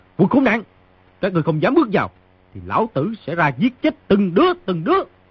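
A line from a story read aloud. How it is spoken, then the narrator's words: Shouting. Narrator (Vietnamese): người trong phòng quát tiếp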